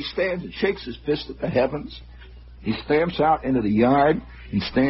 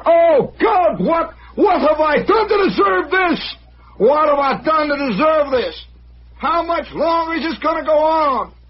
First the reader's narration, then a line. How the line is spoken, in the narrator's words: Gant is stamping around in the house, He's hollering